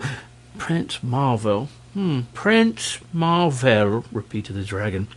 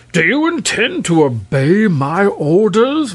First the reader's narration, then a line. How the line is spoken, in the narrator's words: roared the king